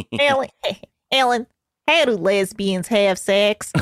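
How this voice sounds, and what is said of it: Imitates another person's voice. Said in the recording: “my impression ... Can someone do a George? ... No, you're nailing it.”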